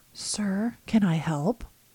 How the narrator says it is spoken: Oscar appears at the doorway and whispers

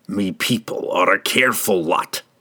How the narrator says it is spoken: snarled, his own frustration and confusion boiling out again in his misdirected rage

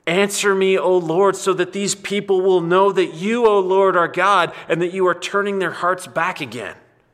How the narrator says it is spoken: Elijah cried out

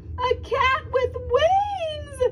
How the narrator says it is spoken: shrieked the town mouse

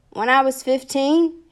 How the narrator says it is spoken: he yelled back

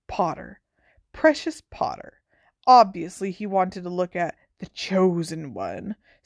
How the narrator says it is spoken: sneered Malfoy

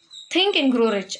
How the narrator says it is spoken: I exclaimed

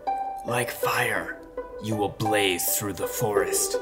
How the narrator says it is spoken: he hissed

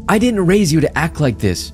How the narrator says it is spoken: Mom shouted, tears in her eyes

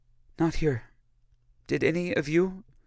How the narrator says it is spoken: sighed deeply and said

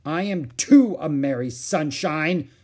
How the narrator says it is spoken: she shouted angrily

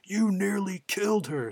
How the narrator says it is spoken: he's just yelling

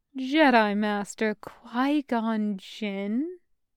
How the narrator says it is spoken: She purrs in response, mocking his earlier statement

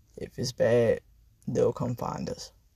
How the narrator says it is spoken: says in a groggy voice

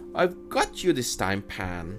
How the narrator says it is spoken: Hook cried

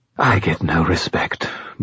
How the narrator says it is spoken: Bob sighed

